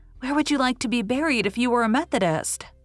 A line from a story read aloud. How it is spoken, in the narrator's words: asked Faith cheerfully